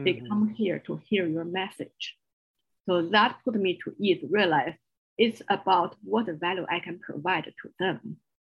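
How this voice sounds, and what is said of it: Strong Chinese accent. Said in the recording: “a strong Chinese accent”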